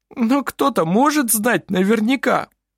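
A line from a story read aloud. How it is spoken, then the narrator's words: Sobbing. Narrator (Russian): всхлипнул Клампин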